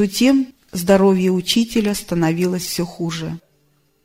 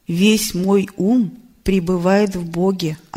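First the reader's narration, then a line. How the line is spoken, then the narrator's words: Plain. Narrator (Russian): ответил Рамакришна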